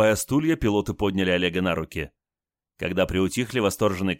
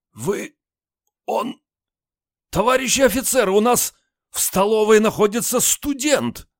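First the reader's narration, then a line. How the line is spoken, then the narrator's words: Choked hoarse shout. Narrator (Russian): Командир полка поперхнулся, затем сипло крикнул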